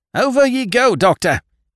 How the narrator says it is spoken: he yelled at me

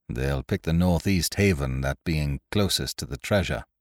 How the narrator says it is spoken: said Ned Low coolly

